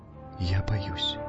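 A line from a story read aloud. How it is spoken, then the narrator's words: Barely audible. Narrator (Russian): еле слышно сказала Алкмена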